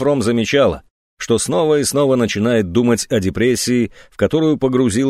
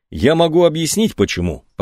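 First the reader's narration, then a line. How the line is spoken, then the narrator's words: Calm, even tone. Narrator (Russian): проговорил он все таким же спокойным и ровным тоном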